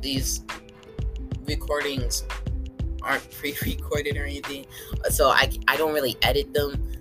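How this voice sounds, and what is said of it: Young voice, sounds like going through puberty. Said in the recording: “my voice sounds like this, like I'm still going through puberty”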